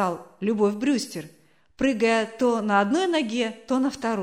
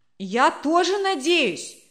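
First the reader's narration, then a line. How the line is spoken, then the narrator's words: Child's shout. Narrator (Russian): крикнул кто-то из детворы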